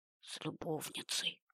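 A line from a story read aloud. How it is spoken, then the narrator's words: Whispered. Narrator (Russian): прошептала Татьяна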